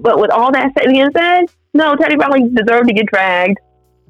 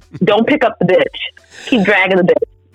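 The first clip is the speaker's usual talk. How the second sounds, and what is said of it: Imitates another person's voice. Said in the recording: “In my best Nicki Minaj voice.”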